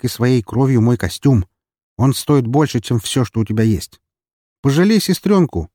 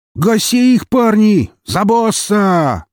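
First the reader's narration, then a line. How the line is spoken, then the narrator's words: Shouted. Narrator (Russian): закричал Сергей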